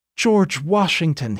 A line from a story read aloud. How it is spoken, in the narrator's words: he cried, a sudden change of tone